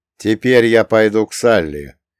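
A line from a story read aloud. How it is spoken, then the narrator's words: Cold. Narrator (Russian): холодно сказал я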